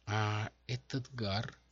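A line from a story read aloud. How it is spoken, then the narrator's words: Uncertain question. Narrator (Russian): неуверенно спросила портниха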